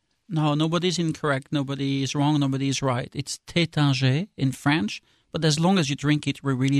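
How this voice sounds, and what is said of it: Usual voice. Nothing is said of it.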